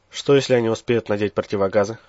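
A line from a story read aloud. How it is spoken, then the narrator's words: Bear's snort. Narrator (Russian): хмыкнул медведь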